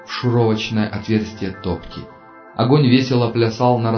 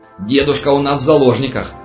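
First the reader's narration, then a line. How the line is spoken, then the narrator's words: Yelling. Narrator (Russian): заорал Аршинов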